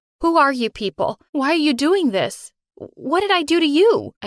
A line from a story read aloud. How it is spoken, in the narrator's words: cried while thinking about Mom, who was all alone now